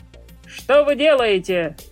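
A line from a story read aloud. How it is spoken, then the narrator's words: Distant officer's shout. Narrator (Russian): закричал офицер с капитанского мостика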